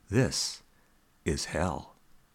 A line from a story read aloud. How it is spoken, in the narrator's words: Hakuin calmly retorted